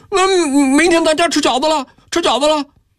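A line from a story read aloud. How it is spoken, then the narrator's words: Children, mouths full, happy shouting. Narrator (Chinese): 2个孩子嘴里塞着碎窝头，高兴地叫嚷着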